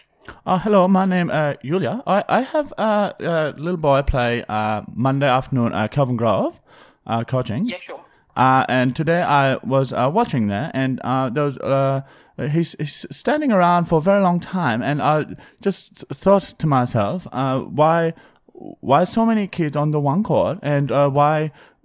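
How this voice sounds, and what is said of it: Put-on foreign accent. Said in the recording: “I don't even know what accent I'm doing”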